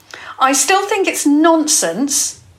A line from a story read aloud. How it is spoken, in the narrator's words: Jasmine said fiercely